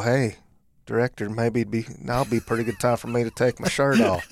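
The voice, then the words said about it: Matthew McConaughey impression. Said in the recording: “impersonating Matthew McConaughey ... I'm not a good impersonator.”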